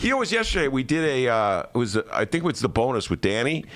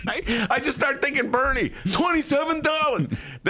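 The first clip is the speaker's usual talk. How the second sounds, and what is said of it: Imitates another person's voice. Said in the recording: “my imitation of Dennis's imitation”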